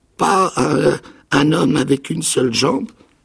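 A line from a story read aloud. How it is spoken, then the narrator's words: Stammering. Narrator (French): bégaya-t-il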